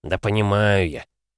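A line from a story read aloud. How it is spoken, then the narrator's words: Grumbling. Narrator (Russian): пробурчал Жгулёв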